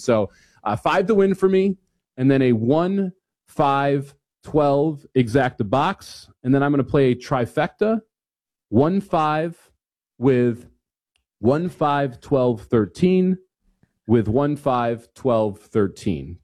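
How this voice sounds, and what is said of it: Movie phone announcer voice. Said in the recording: “my movie phone voice”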